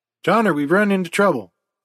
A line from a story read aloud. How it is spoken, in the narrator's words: exclaimed DeVete